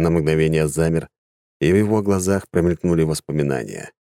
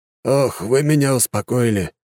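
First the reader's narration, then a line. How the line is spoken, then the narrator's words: Relieved exhale. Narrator (Russian): выдохнул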